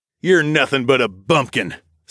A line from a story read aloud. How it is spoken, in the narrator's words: Scott snapped